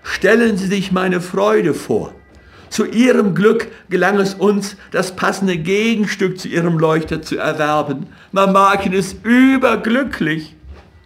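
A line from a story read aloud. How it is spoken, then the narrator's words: Breathless call. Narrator (German): rief er außer Atem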